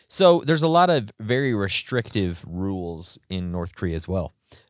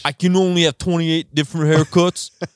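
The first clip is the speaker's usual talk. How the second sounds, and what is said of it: Put-on Boston-Canadian accent. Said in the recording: “Your accent. ... Bostonian ... Bostonian mixed with. ... Canadian.”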